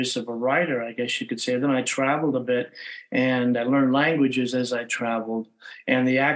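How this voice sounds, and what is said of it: Usual voice. Nothing is said of it.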